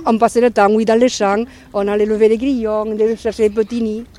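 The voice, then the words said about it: Strong regional French accent. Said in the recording (French): “j'ai un accent particulier, j'ai beaucoup parlé le patois jeune, alors on a un accent un peu corsé”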